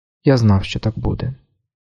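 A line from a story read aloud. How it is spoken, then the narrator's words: Quiet. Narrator (Ukrainian): тихо мовив він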